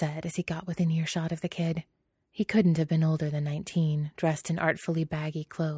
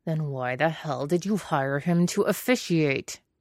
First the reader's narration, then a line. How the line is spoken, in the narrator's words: Jiang Cheng growled